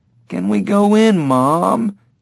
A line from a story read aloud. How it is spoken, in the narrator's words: Jamie whined